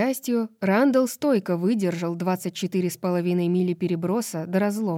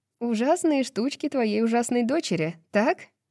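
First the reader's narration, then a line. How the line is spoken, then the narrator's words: Laughing. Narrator (Russian): Рандал засмеялся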